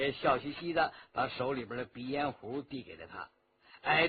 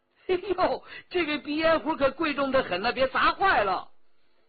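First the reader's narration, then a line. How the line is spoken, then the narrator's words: Laughing. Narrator (Chinese): 张老爷的一个家人笑道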